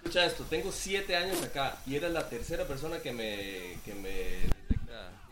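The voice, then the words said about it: Costa Rican Spanish accent. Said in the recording (Spanish): “Por el acento me parecía Costa Rica.”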